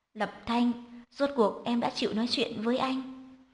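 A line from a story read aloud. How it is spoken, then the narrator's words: Deeply sorrowful sigh. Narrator (Vietnamese): Hạ Chí Thần khẽ thở dài, giọng nói buồn phiền vô hạn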